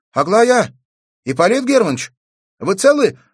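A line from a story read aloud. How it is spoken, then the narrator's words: Girl's anxious shout. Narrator (Russian): взволнованно крикнула девочка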